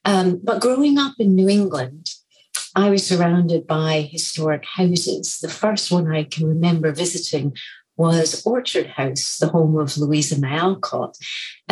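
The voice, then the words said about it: Predominantly Scottish accent. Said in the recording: “you wouldn't necessarily know this from my accent, which is predominantly Scottish”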